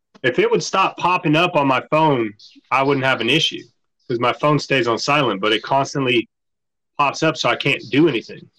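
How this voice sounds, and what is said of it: Country Southern US accent. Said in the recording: “You hear his country accent? ... he's from Tennessee now ... It's bad ... he's full blown Tennessee now. There's not an ounce of Miami in that guy anymore.”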